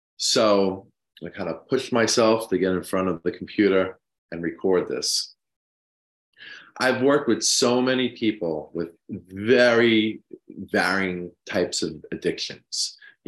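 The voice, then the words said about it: Congested, sick-sounding voice. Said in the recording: “I'm a little bit under the weather with, I think, some kind of head cold ... apologize for my voice”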